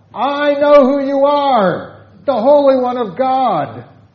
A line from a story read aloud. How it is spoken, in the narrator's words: the demons cried out